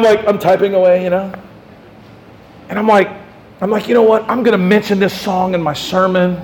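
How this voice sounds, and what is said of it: Usual voice. Nothing is said of it.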